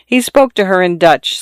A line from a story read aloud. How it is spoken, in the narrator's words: Soraya said, but in the same tone that the men in her own family spoke to their mothers, gravely with a touch of fear